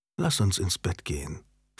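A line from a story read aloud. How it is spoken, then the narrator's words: Whispering. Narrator (German): flüsterte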